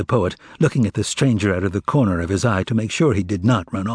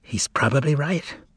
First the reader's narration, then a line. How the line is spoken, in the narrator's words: whispered Berlioz anxiously